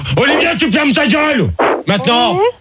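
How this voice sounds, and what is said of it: Shouting angrily. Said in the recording (French): “tu me fais peur quand tu cries... tu m'excites quand tu cries”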